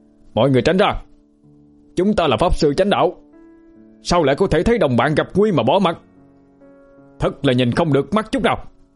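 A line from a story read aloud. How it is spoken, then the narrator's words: Righteous shout from afar. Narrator (Vietnamese): có một tiếng thét đầy chính khí vọng tới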